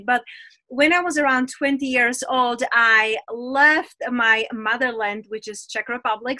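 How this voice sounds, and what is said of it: Czech accent mixed with others. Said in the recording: “There's a funny accent there ... I own my accent, but I am from Czech Republic ... I'm this like cosmopolitan mix of all over the accents”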